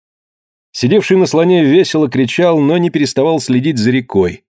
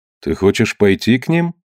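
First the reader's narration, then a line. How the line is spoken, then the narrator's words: Thoughtful question. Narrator (Russian): задумчиво спросил этруск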